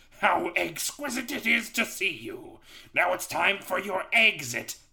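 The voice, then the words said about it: Booming cartoon villain voice. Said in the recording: “was that an impression of Dr. Robotnik from the Sonic, or like the original Sonic anime? Because that was fucking dead on.”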